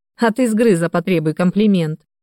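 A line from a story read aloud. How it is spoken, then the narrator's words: Loud laughter. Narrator (Russian): расхохотался Иван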